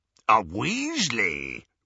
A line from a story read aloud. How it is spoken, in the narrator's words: rasped Greyback